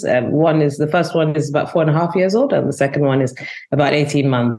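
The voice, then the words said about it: London accent. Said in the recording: “you have this great London accent”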